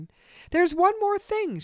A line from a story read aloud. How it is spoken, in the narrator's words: said excitedly